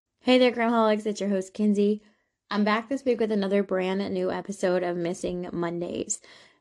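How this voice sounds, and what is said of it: Sick, funny-sounding voice. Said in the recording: “apologize for my voice sounding a little funny. I once again have caught something from my daughter ... listen to my voice like this”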